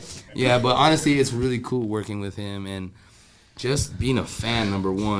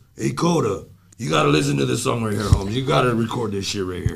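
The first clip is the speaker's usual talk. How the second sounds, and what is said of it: Imitates another person's voice. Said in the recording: “He sounds just like ... my best Danny Trejo impression.”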